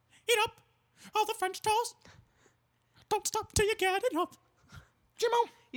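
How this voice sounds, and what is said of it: High-pitched cartoon mouse voice. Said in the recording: “You sound like Mickey Mouse.”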